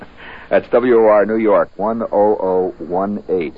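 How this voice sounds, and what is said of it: Usual voice. Nothing is said of it.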